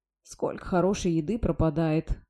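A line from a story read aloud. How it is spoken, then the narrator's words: Sad reply. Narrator (Russian): грустно отозвалась Глория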